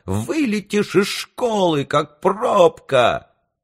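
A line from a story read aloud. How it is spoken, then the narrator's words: Shrill shout. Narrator (Russian): визгливо закричал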